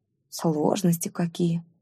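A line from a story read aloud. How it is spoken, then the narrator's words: Pained sigh. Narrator (Russian): страдальчески вздохнула Кирин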